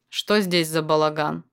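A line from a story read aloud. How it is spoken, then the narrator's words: Booming voice. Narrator (Russian): Прогремел голос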